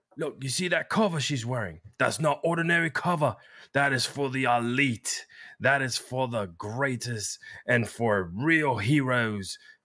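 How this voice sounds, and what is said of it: Charmingly bad put-on British accent. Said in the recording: “charmingly bad British accent”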